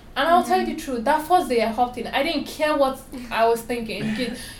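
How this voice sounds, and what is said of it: Strong foreign accent. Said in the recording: “I have a very strong accent”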